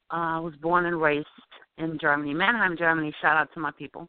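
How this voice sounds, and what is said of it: Slight German accent. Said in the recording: “You still can tell that I have an accent, but it's not like I can't really just say, oh, she's from Germany.”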